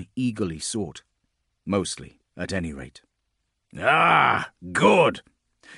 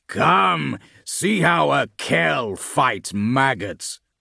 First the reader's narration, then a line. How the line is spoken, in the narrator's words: Cadoc roared